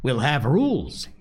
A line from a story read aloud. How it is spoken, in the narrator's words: he cried excitedly